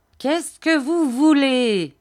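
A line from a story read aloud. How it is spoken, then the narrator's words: Fierce old man shouting. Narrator (French): cria le vieillard d'un ton féroce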